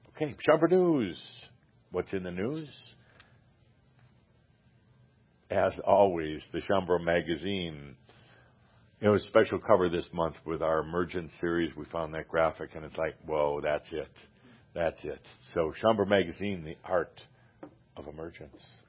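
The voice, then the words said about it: Announcer voice. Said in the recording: “I'm practicing my announcer voice.”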